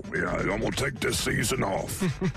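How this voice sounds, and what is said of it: Imitates another person's voice. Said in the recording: “Well, you do the Coach O pretty well. ... would you lay off the Coach O impersonation? You're wearing it out.”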